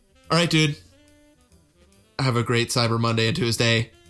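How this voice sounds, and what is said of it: Robotic voice. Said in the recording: “I was trying to be a robot there.”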